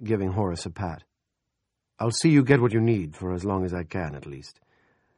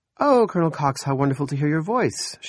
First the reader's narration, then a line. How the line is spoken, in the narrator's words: she said brightly